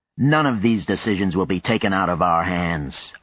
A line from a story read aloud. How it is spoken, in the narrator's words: Arcadi put in sharply